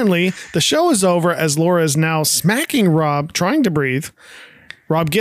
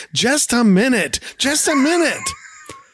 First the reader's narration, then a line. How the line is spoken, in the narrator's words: Rob yells